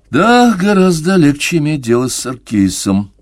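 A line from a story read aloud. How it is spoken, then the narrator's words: Commissioner's sigh to himself. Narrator (Russian): вздохнул про себя комиссар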